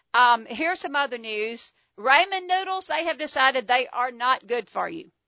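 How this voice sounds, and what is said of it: Southern American accent. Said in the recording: “this Southern accent can't go pretentious British”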